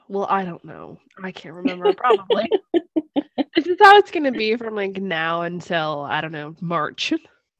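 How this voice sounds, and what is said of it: Sick, rough-sounding voice. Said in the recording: “now I'm the sick one. If anyone can't tell by my like super sexy voice.”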